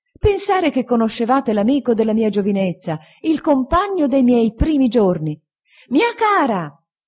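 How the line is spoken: Woman shouting from railing. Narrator (Italian): gridando dalla ringhiera la signora Micawber

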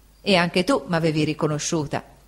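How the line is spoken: Plain. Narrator (Italian): disse l'Emilietta

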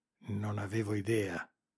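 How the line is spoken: Murmured. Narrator (Italian): mormorò

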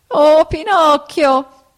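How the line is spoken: Whining shout. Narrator (Italian): gridò la volpe con voce di piagnisteo

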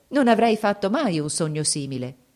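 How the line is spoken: Exclaimed. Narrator (Italian): esclamò

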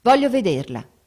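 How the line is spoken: Curt repetition. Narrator (Italian): ripeté seccamente

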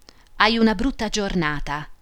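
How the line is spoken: Plain. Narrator (Italian): disse la pretora

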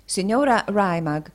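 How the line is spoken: Plain. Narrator (Italian): disse Tommaso

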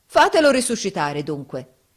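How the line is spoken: Defiant yell. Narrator (Italian): urlò Giovanni in tuono di sfida

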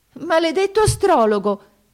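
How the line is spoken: Exclaimed. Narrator (Italian): esclamò la principessa

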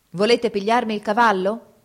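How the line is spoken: Shouting. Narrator (Italian): gridò

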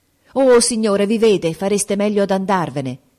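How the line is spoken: Exclamation. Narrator (Italian): esclamò Grace

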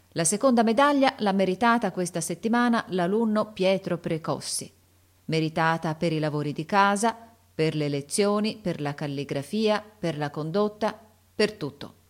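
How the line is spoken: Loud announcement. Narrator (Italian): Il sovrintendente disse a voce alta

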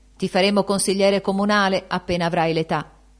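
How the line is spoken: Playful, patronizing exclamation. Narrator (Italian): Benedetto esclamò con tono scherzoso di protezione

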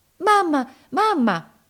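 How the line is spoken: Anxious shout. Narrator (Italian): gridò ansiosa

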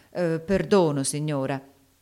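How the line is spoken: Ungracious mutter. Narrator (Italian): borbottò Haley con una certa malagrazia

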